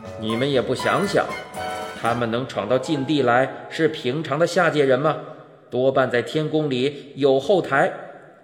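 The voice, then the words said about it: Stern, commanding character voice. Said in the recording (Chinese): “那个威严的声音说道”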